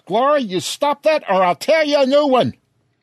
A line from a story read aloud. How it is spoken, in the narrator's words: Brenda screams